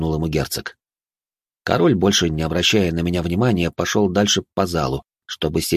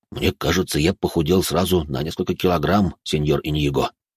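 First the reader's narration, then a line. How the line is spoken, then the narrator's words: Quiet confession. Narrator (Russian): тихо признался мне швейцарец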